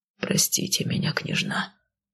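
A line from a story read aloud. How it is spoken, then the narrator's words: Quiet faltering murmur. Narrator (Russian): тихо пролепетал он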